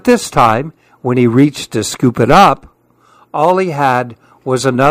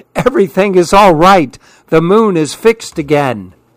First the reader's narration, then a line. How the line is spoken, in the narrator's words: the smallest monkey called out happily